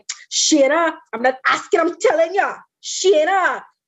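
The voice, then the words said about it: Imitates another person's thick accent. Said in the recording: “a thick accent ... she'll start doing the accent”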